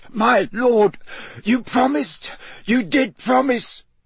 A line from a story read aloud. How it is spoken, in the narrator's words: he choked